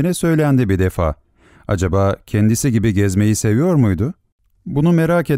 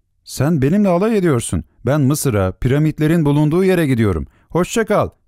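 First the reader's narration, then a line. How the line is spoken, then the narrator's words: Shouting. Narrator (Turkish): diye bağırarak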